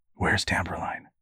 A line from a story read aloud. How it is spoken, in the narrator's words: whispered